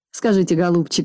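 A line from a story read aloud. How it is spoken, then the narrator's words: Plain. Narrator (Russian): спросила хозяйка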